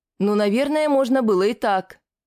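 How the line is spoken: Cheerful yell. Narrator (Russian): веселым голосом проорала Шиза

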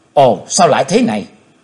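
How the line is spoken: Old woman's shout. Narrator (Vietnamese): Tiếng quát của lão ấy bà

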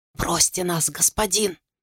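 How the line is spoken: Whispered. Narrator (Russian): прошептал он

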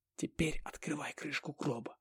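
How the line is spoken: Barely audible. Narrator (Russian): едва слышно сказал я

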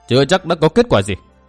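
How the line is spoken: Cold reply. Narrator (Vietnamese): Nguyên Bình lạnh lùng đáp

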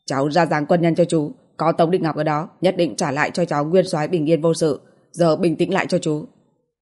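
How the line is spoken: Cold, angry voice. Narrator (Vietnamese): Đại đội trưởng Trần lạnh giọng tức giận nói

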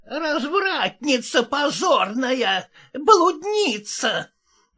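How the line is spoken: Hissing nun. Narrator (Russian): прошипела монахиня

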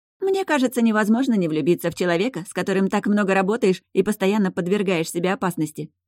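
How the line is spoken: Laughing. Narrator (Russian): рассмеялась Фейт

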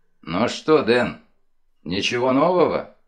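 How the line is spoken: Gloomy question. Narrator (Russian): мрачно спросил мистер Лек

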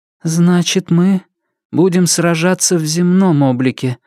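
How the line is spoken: Muffled, dull voice. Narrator (Russian): глухо закончила за нее Нефрита

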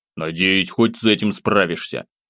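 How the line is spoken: Grumbling. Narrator (Russian): проворчал

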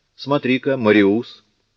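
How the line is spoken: Exclaimed. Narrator (Russian): воскликнул Буссюэ

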